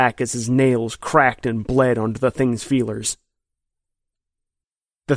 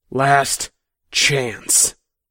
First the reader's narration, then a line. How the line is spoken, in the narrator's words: Kevin hissed